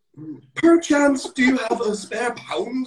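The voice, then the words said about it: Exaggerated posh upper-class British accent. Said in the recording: “accent ... these kind of toffs, blue bloods walking around ... we don't speak like this”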